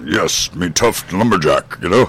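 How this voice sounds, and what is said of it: Gruff tough lumberjack voice. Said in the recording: “doing my lumberjack imitation.”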